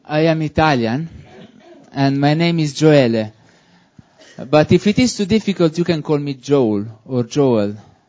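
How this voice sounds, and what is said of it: Italian speaker, British-sounding accent. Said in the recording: “one of the first thing that the people think about me is that I'm British ... I know that my accent can trick you. I'm not a British man.”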